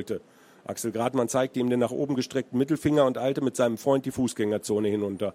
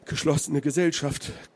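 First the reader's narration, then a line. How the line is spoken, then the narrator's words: Panted. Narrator (German): Füßler keuchte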